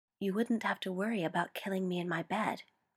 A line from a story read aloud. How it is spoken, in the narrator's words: he whispered